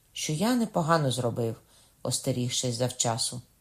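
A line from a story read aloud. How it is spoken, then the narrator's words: Sighing. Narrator (Ukrainian): сказав Кокона, зітхнувши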